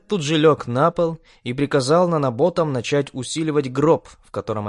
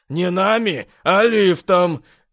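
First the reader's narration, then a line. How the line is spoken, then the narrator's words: Manic, loud laughter. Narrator (Russian): Безумство в голосе парня начало преобладать, после чего он начал смеяться, громко и безудержно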